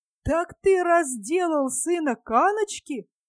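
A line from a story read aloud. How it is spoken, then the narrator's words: Exclaiming. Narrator (Russian): воскликнул Пишта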